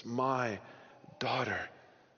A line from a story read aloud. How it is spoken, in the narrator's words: You can hear the pleading in Jairus' voice there in verse 18 when he says to Jesus